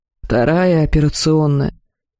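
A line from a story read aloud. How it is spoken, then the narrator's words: Dull, muffled voice. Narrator (Russian): глухо произнес целитель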